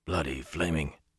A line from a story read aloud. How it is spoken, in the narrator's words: Una whispered